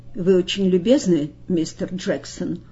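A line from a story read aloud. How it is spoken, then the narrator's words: Cold. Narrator (Russian): холодно сказал Бейтман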